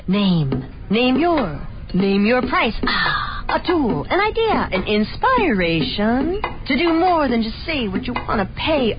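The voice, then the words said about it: Beat poet performance voice. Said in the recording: “my impression of a beat poet”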